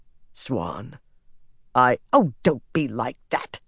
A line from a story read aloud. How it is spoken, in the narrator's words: she growled